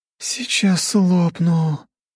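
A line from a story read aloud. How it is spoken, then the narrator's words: Groaned. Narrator (Russian): простонала пухленькая Анна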